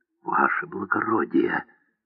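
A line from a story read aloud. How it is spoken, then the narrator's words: Mysterious whisper. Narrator (Russian): таинственно прошептал он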